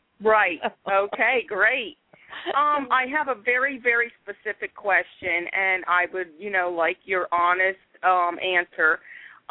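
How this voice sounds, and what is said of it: Philadelphia accent. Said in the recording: “I love your accent ... I know the accent very well.”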